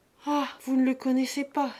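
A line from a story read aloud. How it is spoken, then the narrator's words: Exclaimed. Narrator (French): s'écria Lise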